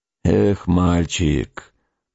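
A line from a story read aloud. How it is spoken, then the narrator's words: Scout grumbling in English. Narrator (Russian): проворчал разведчик по-английски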